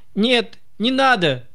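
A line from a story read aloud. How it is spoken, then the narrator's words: Shouting. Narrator (Russian): закричал Холмс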